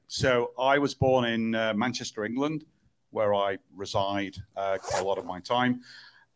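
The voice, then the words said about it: English accent. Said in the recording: “you were not born in Minnesota. That's not where the accent comes from.”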